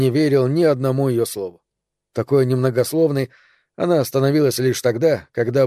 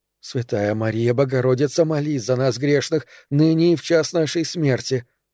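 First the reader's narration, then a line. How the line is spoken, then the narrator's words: Mumbled prayer. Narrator (Russian): бормотала Тереза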